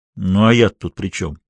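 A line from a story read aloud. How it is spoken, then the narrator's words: Grumbled. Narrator (Russian): буркнул Кэллен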